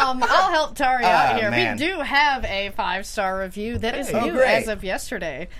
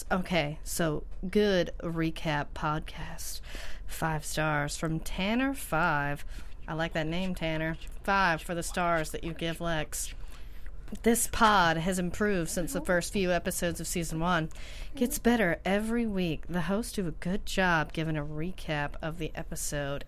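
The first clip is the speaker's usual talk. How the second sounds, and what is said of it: Put-on sexy voice. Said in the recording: “sexy voice.”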